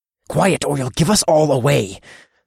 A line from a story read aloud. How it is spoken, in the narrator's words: growled